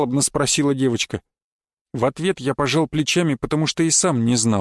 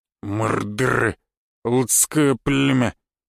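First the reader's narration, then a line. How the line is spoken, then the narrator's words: Grumble. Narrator (Russian): проворчал он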